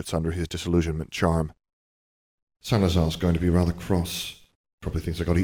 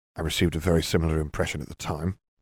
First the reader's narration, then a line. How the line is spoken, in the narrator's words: Harry muttered